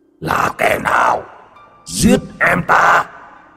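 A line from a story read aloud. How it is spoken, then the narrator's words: Monstrous roar. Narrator (Vietnamese): quái vật từ địa ngục trôi lên, nó gầm thét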